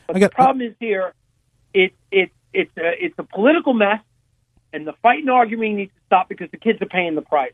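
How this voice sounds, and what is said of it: New York accent. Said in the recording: “I detect a New York accent.”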